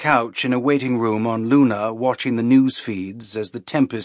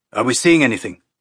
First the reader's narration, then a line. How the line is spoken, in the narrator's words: Sagala asked, his voice tight and tense